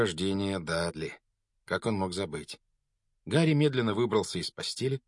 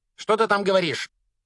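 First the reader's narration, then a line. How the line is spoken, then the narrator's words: Barked from behind door. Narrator (Russian): рявкнула тетя из-за двери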